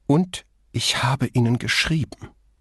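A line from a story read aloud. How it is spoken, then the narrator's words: Bitter hiss. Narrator (German): zischte die andere erbittert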